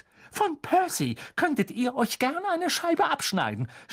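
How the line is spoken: Shouting. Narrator (German): schrie Mrs

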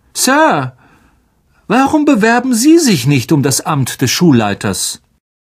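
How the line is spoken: Said loudly. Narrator (German): sagte Malfoy laut

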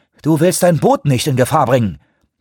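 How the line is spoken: Aggressive barking tone. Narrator (German): bellte Shoemaker angriffslustig

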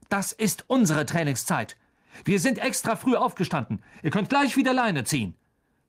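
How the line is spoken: Barked. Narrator (German): bellte Wood den Kapitän der Slytherins an

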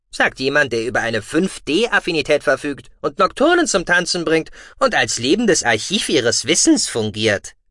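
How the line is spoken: Good-natured mocking. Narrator (German): spottete Gucki gutmütig

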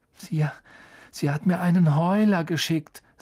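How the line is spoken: Weak, flat voice. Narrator (German): sagte Ron mit matter Stimme

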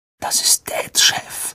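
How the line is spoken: Breathy whisper. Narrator (German): hauchte Ron

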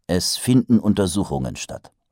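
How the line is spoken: Plain. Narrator (German): sagte Mumm

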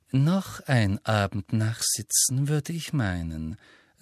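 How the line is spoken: Gentle. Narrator (German): sagte sie sanft

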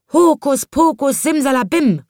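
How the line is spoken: Calling out. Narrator (German): rief er

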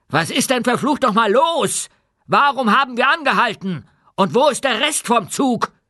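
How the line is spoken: Shouting. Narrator (German): rief

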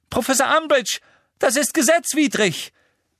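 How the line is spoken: Shouting. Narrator (German): schrie Hermine

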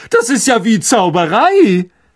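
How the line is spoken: Called out. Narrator (German): rief er

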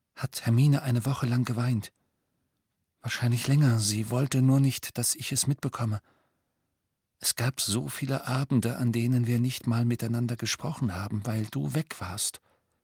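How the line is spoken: Quiet voice. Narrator (German): sagte er mit leiser Stimme

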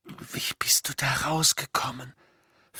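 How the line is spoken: Whispered question. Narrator (German): fragte Harry und war nicht überrascht, dass er sich selbst flüstern hörte

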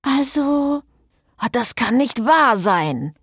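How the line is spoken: Groaned. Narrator (German): stöhnte Gaylord

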